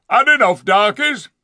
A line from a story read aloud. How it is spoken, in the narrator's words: yelled